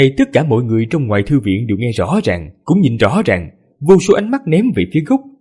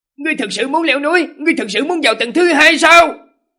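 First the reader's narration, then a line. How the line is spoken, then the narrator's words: Terrified loud cry. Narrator (Vietnamese): chữ Do Hiền khiếp sợ thất sắc lớn tiếng hô lên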